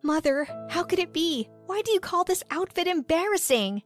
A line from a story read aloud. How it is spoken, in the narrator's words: cried, but my tears